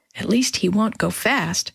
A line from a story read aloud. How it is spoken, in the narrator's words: she whispered